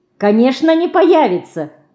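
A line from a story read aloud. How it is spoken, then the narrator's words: Suddenly cheerful. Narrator (Russian): вдруг весело сказала Динка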